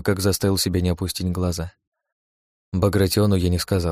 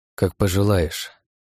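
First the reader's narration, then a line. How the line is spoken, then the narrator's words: Plain. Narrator (Russian): ответил я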